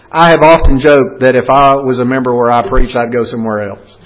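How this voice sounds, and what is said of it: Southern accent. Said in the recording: “I never knew that I had a Southern accent ... I've gotten worse.”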